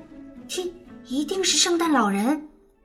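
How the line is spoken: Quiet, hushed. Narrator (Chinese): 露露小声说

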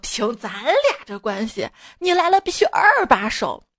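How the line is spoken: Laughing. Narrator (Chinese): 他笑着说

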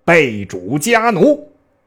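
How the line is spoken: Angry. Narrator (Chinese): 布怒

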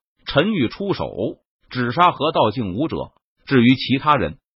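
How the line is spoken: Cold, stern. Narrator (Chinese): 陈宇脸庞冷峻，目光冰冷，冷声说道

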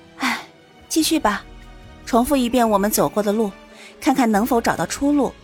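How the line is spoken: Heavy resigned sigh. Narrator (Chinese): 苏玲……心中重重的叹了口气，然后道

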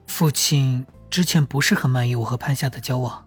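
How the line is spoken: Lower voice. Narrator (Chinese): 明声音更低了

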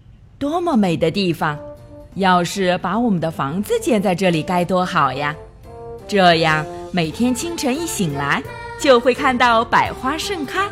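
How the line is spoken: Admiring. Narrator (Chinese): 巴巴 赞叹道

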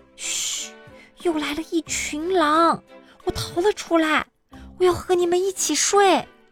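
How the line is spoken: Quietly. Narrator (Chinese): 我小声说

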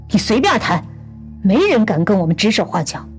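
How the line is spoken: Exasperated loud shout. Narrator (Chinese): 无法忍受的民静朝着钢琴屋使劲喊了一声

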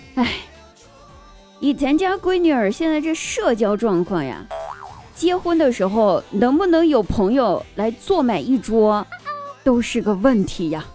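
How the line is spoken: Sudden sigh. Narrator (Chinese): 我妈突然感叹道

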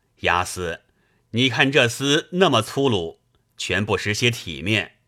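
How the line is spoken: Laughing. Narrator (Chinese): 戴宗对宋江笑道

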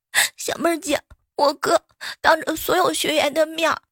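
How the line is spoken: Crying. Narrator (Chinese): 小蕊就哭着

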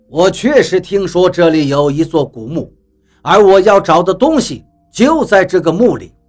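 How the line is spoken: Casual, dismissive. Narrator (Chinese): 比利笑了笑，一脸不在乎的模样，不以为意的说道

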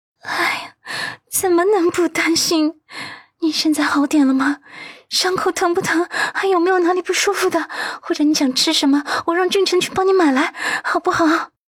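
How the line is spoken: Sighing. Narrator (Chinese): 温子欣叹息

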